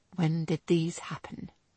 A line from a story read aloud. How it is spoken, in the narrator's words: he asked in a low, controlled voice